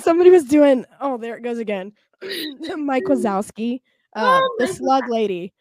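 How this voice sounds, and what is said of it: Raspy, gravelly smoker-like voice. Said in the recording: “I still sound like trailer park trash that smokes 10 packs a day ... raspy”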